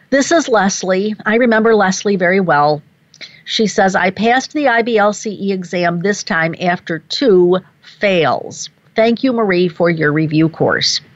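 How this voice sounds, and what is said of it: Choked-up, emotional voice. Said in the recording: “I can feel myself getting just a little bit choked up here.”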